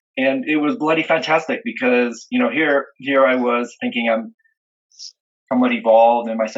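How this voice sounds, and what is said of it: Usual voice. Nothing is said of it.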